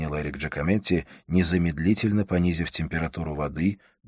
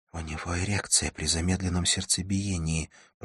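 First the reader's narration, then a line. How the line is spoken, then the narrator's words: Whispered in ear. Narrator (Russian): прошептала Шарлотта на ухо Джакометти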